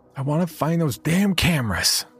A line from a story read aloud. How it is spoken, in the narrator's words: she yelled at me